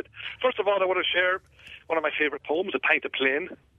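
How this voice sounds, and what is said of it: Irish accent. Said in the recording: “That's a native accent. ... I'm from Dundalk, so a wee bit north of you”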